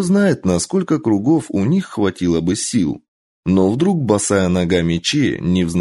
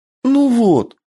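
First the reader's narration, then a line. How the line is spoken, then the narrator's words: Tearful cry. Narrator (Russian): Плаксиво вскрикнула Кицуне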